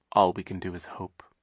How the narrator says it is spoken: Sunny said quietly

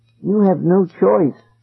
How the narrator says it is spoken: Eloise said sadly

